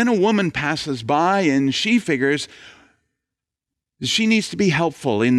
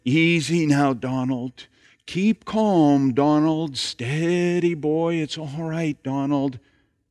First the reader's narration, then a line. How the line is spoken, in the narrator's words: the father murmuring